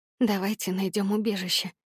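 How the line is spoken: Whispered. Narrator (Russian): прошептала я

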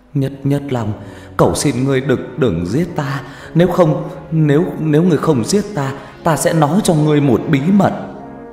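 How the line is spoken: Stammering. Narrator (Vietnamese): Hắn lắp bắp

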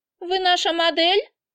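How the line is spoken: Squeaky question. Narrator (Russian): спрашивает писклявым голосом

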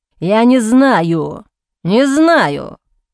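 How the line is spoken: Man growling. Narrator (Russian): прорычал мужчина

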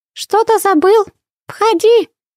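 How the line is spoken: Shout. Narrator (Russian): крикнула Винни

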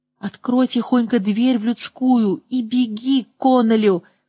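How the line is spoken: Hoarse whisper. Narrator (Russian): хриплым шепотом сказал он

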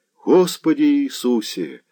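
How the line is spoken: Trembling, feverish sigh. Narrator (Russian): вздохнул Заглоба, дрожа как в лихорадке

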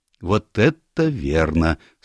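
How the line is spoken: Calm agreement. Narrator (Russian): спокойно согласился Станор

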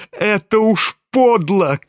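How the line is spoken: Shouting, crying with shame. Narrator (Russian): крикнул Коля, совсем плача от стыда и досады

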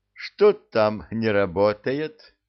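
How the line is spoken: Plain, vagrant. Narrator (Russian): спросил бродяга

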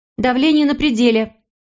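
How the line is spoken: Nurse shouting. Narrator (Russian): крикнула медсестра

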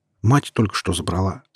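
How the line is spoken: Calm reply. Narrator (Russian): спокойно ответил я

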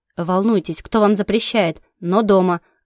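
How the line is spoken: Growling dragon. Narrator (Russian): рыкнул дракон

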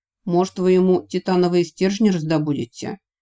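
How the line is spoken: Smirking snort. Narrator (Russian): хмыкнул Вик

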